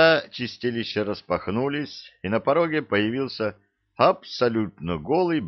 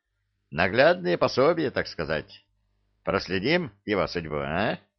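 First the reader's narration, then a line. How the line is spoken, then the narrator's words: Cheerful question. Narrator (Russian): весело спросил он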